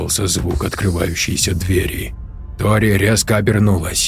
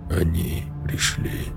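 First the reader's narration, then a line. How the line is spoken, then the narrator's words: Barely audible lifeless whisper. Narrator (Russian): вдруг едва слышно прошептал Рон безжизненным голосом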